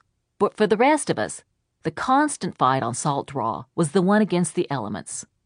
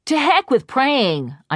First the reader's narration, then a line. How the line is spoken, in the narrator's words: I shouted